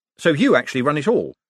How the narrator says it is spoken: said Moist quickly

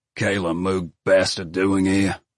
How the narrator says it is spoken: Coop muttered

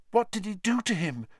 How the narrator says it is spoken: Hermione whispered

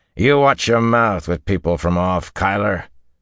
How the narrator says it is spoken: the older man growled

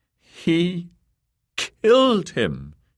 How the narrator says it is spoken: she said in a quavery voice

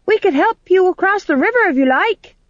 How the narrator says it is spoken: shouted Tom John after her

